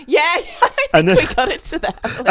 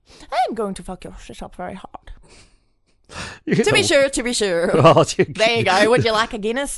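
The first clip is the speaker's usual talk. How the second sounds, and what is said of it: Weak put-on Irish accent. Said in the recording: “you do good accents, but your Irish is not really...”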